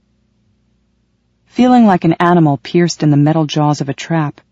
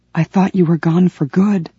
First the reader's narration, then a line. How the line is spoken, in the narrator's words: I whispered